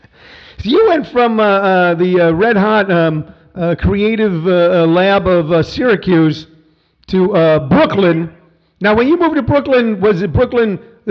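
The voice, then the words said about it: Flat upstate New York accent. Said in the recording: “you sound like you're from my hometown ... I'm from Missouri, but somehow I got that flat accent ... You sound like you're from my town, Syracuse, New York”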